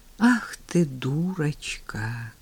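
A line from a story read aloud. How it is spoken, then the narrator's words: Blissful sigh. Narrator (Russian): Блаженно вздохнул он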